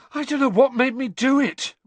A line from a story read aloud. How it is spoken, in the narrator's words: Ron gasped again